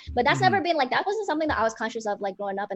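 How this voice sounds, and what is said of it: American-sounding accent. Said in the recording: “I want to sound like an American ... that's why I sound like this ... did you pick up that accent from, like, living in LA? It's like, no, it's always been like this.”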